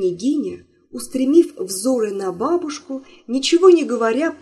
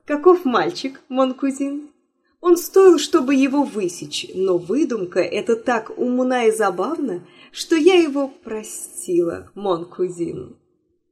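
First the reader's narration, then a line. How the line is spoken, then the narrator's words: Laughing, then speaking. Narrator (Russian): она тотчас засмеялась и … сказала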